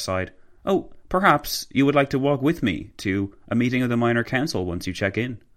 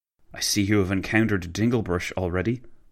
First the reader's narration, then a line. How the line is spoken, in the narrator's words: McCauville whispered